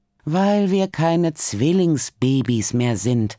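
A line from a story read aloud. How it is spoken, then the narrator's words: Groaned. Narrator (German): stöhnt Hanna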